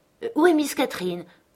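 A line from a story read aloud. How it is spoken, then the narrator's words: Sharp shout. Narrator (French): criai-je vivement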